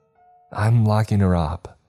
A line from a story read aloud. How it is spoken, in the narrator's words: Elle said shakily